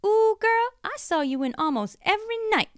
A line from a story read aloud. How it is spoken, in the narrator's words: Charisse exclaimed